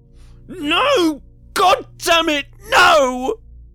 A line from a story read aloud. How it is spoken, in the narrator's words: Cup screamed